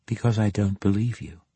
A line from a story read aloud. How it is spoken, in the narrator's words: she replied